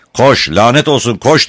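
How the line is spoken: Shouting. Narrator (Turkish): diye bağırdı

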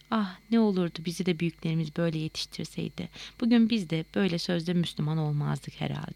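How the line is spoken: Sad voice. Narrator (Turkish): Hüzünlü bir sesle

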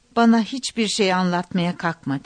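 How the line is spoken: Plain. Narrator (Turkish): dedi

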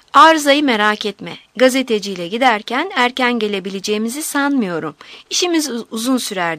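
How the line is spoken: Plain. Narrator (Turkish): dedi

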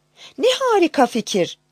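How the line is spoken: Crying out. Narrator (Turkish): diye haykırmış

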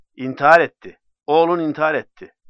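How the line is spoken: Shouting reply. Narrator (Turkish): diye bağırarak karşılık verdi ona

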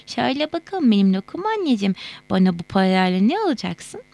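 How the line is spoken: Laughing reply. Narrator (Turkish): Feyza gülerek cevap veriyordu

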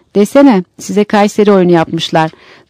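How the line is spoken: Laughing. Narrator (Turkish): Yolculardan biri gülerek

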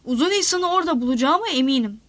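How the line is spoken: Plain. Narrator (Turkish): dedi

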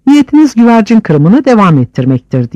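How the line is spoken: Shouted. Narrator (Turkish): diye bağırdı Hüsamettin

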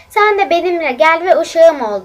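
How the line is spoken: Plain. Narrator (Turkish): dedi

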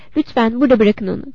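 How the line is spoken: Plain. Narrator (Turkish): dedi

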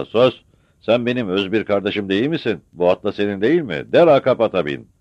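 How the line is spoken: Shout. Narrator (Turkish): diye bağırdı Murtaza

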